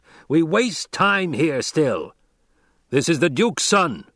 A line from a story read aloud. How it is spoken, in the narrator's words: Stilgar barked